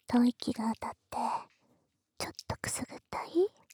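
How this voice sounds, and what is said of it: Soft whispering voice. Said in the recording (Japanese): “可愛い妹のささやき声なんだから”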